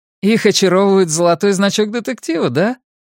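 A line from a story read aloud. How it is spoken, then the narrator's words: Forced laugh. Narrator (Russian): Гурни заставил себя рассмеяться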